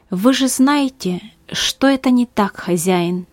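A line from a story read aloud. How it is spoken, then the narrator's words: Calm. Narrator (Russian): ответил он спокойно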